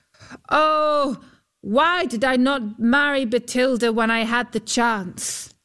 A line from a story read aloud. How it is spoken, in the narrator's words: Huldbrand called out